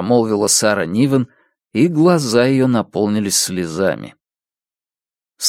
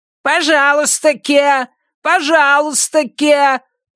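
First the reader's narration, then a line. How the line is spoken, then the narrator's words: Distant shout. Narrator (Russian): прокричал кокоду в дальней комнате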